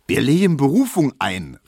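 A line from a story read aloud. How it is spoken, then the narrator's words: Calling out again. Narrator (German): rief Tesch wieder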